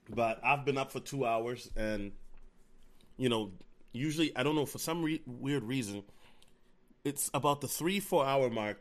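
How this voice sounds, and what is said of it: Tired-sounding voice. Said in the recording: “it's 3:59, 4 a.m. CST. So if I sound tired, forgive me.”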